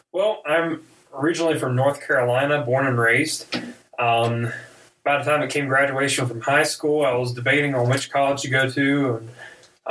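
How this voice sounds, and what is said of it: Southern American accent. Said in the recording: “the southern accent”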